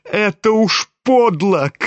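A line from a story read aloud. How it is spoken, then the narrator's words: Shouting, crying with shame. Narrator (Russian): крикнул Коля, совсем плача от стыда и досады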